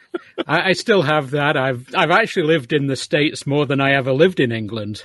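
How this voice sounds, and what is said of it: British English accent. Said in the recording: “you still have your British accent”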